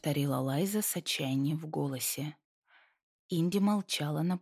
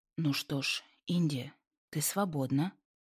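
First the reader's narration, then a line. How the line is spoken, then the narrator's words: Soft. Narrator (Russian): произнес он мягко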